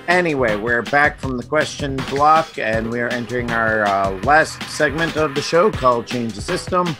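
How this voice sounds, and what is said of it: Strained, failing voice. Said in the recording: “I'm losing my voice, so apparently it's also changing as well.”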